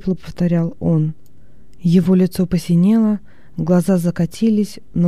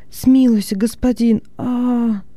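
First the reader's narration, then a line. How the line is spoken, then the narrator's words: Slaves moaning. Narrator (Russian): стонали рабы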